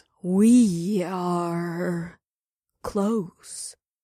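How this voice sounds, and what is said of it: Annoyingly slow character voice. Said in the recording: “in a slow voice ... the sloth would talk in an annoyingly slow voice”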